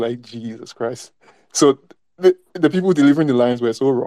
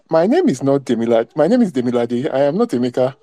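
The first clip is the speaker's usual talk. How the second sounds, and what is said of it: Strong Igbo accent. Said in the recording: “in an accent reminiscent of Mr. C ... In this strong Igbo accent”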